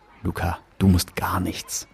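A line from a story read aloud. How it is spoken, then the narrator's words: Whisper. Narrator (German): flüsterte ich zurück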